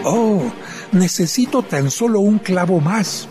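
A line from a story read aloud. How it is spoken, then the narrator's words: Plain. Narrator (Spanish): dijo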